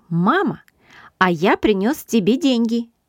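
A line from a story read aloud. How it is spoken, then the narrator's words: Joyful announcement. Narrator (Russian): радостно сообщил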